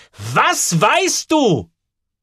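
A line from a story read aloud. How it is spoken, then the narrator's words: Nearly shouting. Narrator (German): Sie brüllt fast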